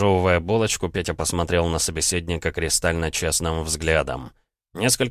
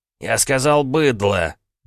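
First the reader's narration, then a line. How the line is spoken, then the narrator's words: Smug, through gritted teeth. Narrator (Russian): процедил хлыщ с видимым удовольствием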